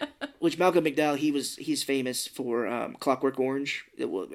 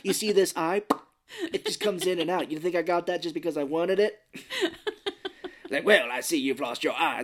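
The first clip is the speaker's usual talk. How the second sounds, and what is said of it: Imitates another person's voice. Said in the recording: “That's my Malcolm McDowell impersonation.”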